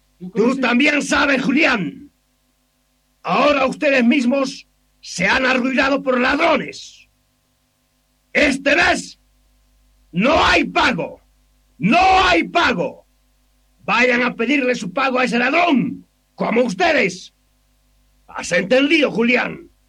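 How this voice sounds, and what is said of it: Angry shouting. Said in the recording (Spanish): “¿Por qué gritas tanto, patrón?”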